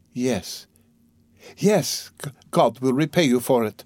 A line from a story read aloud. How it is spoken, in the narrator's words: faltered Sonya